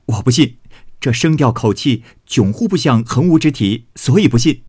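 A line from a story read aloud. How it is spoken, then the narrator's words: Laughing. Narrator (Chinese): 宝玉笑道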